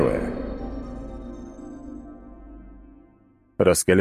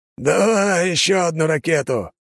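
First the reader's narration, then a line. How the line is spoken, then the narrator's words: Hoarse shout over machine noise. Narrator (Russian): хрипло крикнул Лажон, перекрывая грохот работающей на пределе машины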